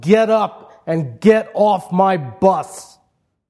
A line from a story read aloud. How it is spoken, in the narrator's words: he bellowed